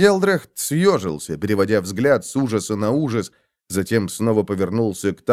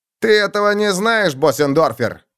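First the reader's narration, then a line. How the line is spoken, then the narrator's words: Shout. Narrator (Russian): крикнул Цейсман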